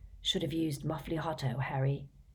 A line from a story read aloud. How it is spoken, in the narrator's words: said Ron, adding quietly